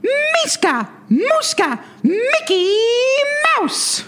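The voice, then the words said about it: Mickey Mouse cartoon character voice. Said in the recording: “your Mickey Mouse Clubhouse impression ... this incredible talent for Mickey Mouse impersonation ... That's really good.”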